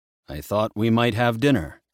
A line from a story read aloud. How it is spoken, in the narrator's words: he said